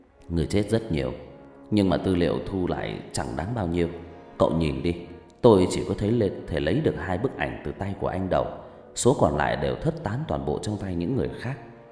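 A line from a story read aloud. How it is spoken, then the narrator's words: Sad sigh. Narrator (Vietnamese): Quân buồn rầu thở dài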